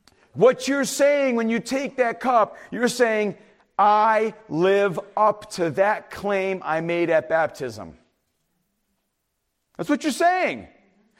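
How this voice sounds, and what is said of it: Yelling, loud preaching voice. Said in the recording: “I'm going to lose my voice now because I'm yelling.”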